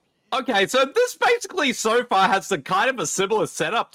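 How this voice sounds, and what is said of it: Usual voice. Nothing is said of it.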